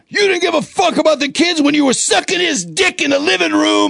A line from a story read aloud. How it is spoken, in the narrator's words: you hear OG yelling